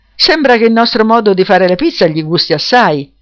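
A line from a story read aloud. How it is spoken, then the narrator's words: Amused laughing exclamation. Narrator (Italian): si mise a ridere esclamò in modo divertito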